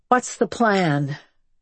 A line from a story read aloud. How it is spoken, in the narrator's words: she asked, her voice loaded with fatigue